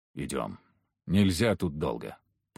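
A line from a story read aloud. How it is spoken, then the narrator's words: Mutter. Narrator (Russian): пробормотал Егор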